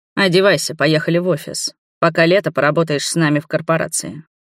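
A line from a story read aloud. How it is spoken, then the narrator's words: Calm and confident. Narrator (Russian): спокойно и уверенно выдал мне мой кормилец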